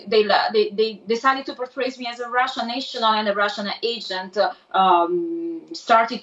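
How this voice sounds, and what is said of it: Italian accent. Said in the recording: “my Italian accent”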